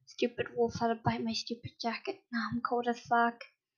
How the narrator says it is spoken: Grumpily muttered

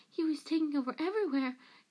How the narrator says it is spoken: gasped Peter

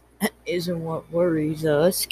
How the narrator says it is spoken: Kane said quietly

